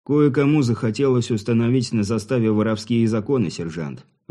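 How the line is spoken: Even-voiced answer. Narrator (Russian): ровным голосом ответил Сергей

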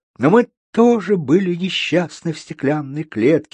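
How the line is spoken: Sad singing. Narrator (Russian): печально пропела Малиновка

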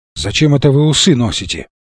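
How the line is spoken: Muttered. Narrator (Russian): пробормотал он

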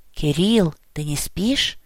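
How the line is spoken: Quiet whisper. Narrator (Russian): Тихий шепот

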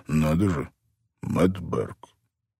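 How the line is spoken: Slow speech. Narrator (Russian): медленно проговорил Джимми Коуди

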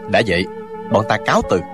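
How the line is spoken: Cold. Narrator (Vietnamese): Chàng lạnh lùng nói

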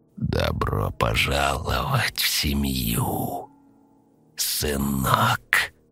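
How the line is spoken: Hoarse rasp. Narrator (Russian): прохрипел он

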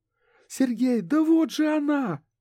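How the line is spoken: Shout. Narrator (Russian): крикнула Лена

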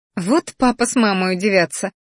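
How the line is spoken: Quiet laugh to herself. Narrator (Russian): хохотнула про себя

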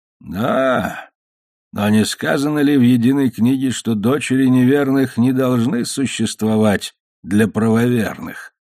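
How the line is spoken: Sighing pasha. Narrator (Russian): сказал паша и снова вздохнул

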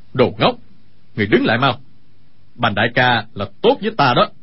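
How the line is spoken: Pained shout. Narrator (Vietnamese): Sa Thông Thiên nhịn đau quát

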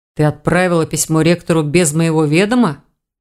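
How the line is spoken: Growling young man. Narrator (Russian): зарычал молодой человек

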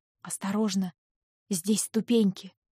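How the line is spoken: Whisper. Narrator (Russian): шепнул он

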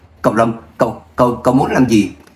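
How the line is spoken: Trembling question. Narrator (Vietnamese): Lâm Hằng Chi run rẩy hỏi

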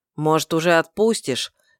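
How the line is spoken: Displeased through teeth, werewolf. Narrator (Russian): недовольно процедил оборотень

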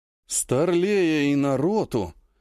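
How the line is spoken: Drawled. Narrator (Russian): протянул новоиспеченный командир танковой роты

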